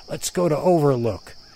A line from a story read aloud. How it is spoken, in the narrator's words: the crazy one in the group, who I will call Animal, started shouting